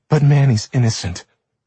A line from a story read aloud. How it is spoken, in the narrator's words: she cried